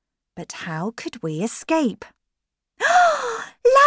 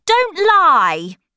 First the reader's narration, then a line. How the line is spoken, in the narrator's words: Linda shouted